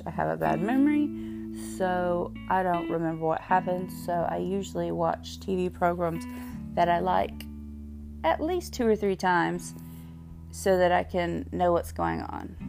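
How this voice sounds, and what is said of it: Strong Southern US accent. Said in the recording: “I am from the South. You can probably tell from my accent ... I'm just super Southern”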